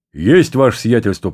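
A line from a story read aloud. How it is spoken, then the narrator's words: Deep bass voice. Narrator (Russian): пробасил все время до этого молчавший одноглазый Кузьма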